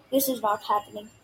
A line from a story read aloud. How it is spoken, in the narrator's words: Grover mumbled